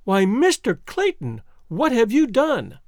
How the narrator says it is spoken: cried Jane Porter, her heart sinking within her

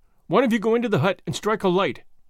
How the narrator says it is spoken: he stammered at last

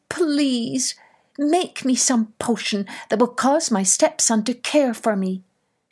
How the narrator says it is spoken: begged

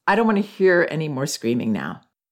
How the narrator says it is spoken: I said in an even tone

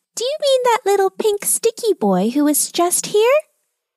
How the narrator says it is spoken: she heard a tiny voice squeak out

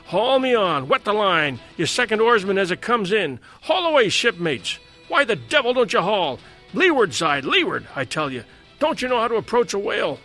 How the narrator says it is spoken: cried

